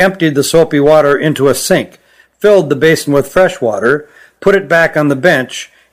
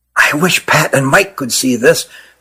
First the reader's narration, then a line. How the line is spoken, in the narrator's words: whispered Nathan to his brother